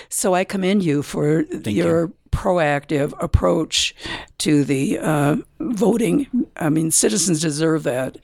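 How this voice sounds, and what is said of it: Slightly scratchy voice. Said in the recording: “my voice is a little scratchy here.”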